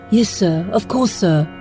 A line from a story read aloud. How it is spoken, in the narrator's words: Hayden responded at once, his voice thick